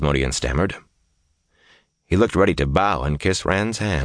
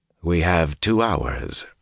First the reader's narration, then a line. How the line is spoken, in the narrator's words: Rand said coldly